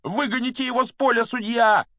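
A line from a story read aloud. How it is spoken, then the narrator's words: Agitated yelling from stands. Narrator (Russian): вопил с трибуны так и не успокоившийся Дин Томас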